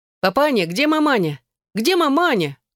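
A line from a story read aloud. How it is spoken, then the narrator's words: Shouting. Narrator (Russian): кричала Эшлинг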